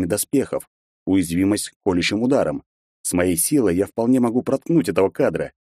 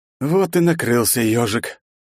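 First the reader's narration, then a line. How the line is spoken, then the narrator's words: Tired. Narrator (Russian): устало произнес я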